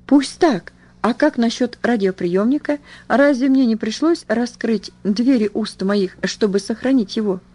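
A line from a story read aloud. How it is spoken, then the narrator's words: Exclaiming. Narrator (Russian): воскликнула я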